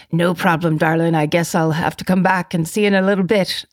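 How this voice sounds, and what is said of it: Bad put-on Irish accent. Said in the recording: “that was a terrible, terrible Irish accent”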